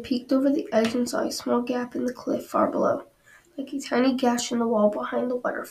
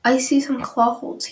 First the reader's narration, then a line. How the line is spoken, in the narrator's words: he said